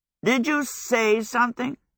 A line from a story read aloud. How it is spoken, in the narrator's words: Howell croaked